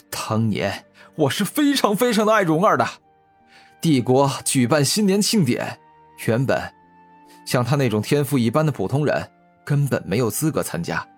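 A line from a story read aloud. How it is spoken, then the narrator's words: Angry. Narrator (Chinese): 欧阳正义先是伸出食指怒指古天明，然后继续说道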